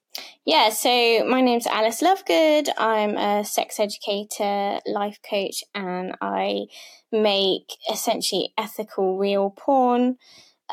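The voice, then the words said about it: British Devon accent. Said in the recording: “your accent ... I'm from Britain. I'm from Devon, so I'm a bit of a country girl”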